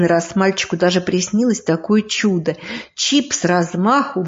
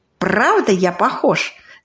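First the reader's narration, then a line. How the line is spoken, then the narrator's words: Familiar voice, laughing question. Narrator (Russian): спросил он знакомым голосом и засмеялся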